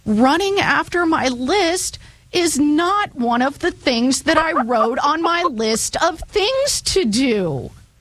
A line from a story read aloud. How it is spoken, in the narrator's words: wailed Toad